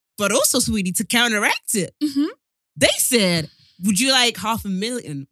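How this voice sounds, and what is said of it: Exaggerated put-on accent. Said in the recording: “Wow, this accent's mad.”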